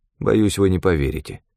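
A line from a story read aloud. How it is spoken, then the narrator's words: Cold. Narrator (Russian): холодно произнес я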